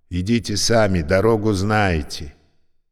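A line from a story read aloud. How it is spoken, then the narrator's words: King shouting. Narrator (Russian): Один из королей крикнул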